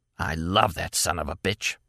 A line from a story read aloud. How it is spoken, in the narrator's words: she whispered harshly